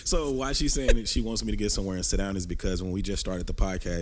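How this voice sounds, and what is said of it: Short of breath, slow sick voice. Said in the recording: “recover from being sick... If you can't tell by my voice, I'm a little short of breath... you hear me talking slow or breathing”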